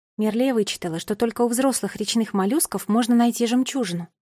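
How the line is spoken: Plain. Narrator (Russian): сказала я фее

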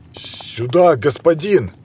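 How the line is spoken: Guard exclaiming. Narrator (Russian): воскликнул страж

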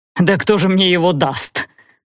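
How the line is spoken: Nanny's loud laughter. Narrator (Russian): расхохоталась нянька

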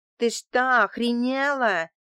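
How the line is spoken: Yelled. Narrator (Russian): заорала шлюха

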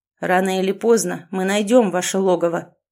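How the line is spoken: Ominous promise. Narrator (Russian): зловещим голосом пообещал он

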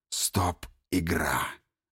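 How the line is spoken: Hoarse. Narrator (Russian): говорит он хрипло

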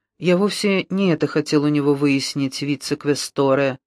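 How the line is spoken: Soft. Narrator (Russian): сказал Брунетти мягко, и тон его разительно контрастировал с истеричной яростью Патты

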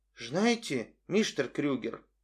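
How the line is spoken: Sighing. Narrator (Russian): вздохнул он

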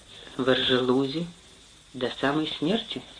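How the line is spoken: Quiet. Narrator (Russian): Тереза тихо сказала

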